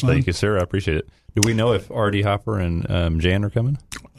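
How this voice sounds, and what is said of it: Polished radio announcer voice. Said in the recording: “outstanding radio voice”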